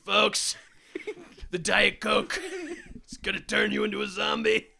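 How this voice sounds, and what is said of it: Imitates another person's voice, hulking out. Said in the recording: “What is that voice? It sounds like Alex Jones ... It sounds like you're like Hulk or Trump, like hulking out”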